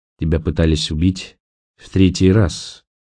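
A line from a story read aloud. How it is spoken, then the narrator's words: Gloomy tone. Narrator (Russian): мрачно проговорил Николас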